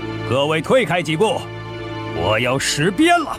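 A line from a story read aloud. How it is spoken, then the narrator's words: Loud announcement. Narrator (Chinese): 尊景琦高声宣布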